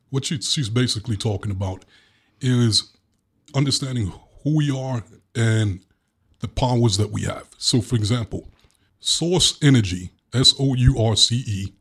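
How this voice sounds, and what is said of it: Brooklyn accent. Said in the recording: “excuse my Brooklyn accent.”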